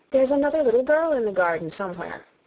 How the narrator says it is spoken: Alice asked eagerly

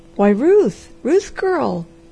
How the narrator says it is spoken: he exclaimed

